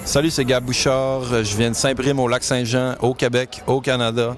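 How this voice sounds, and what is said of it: Québécois French accent. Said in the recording (French): “on va l'arrondir aux angles avec un accent, l'accent québécois”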